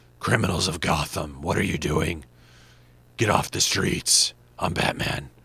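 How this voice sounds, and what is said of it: Batman movie voice impression. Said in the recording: “my Batman movie voice ... that's hard on your voice ... how Christian Bale did that”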